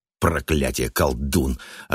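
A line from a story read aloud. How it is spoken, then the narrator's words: Snapping retort. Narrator (Russian): огрызнулся Даффи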